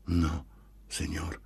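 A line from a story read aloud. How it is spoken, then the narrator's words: Pained, barely audible whisper. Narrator (Italian): Si sentiva che le era penoso parlare, a voce bassissima appena intelligibile, rispose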